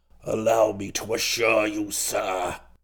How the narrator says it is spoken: he said in a rummy kind of voice

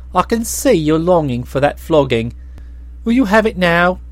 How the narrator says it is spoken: exclaimed Nerl

